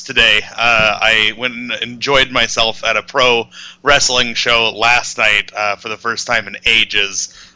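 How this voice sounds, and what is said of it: Slightly hoarse voice. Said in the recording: “my voice is going to be a little bit hoarse”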